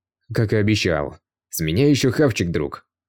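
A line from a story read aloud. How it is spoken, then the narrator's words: Grumbling. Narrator (Russian): Пробурчал Дром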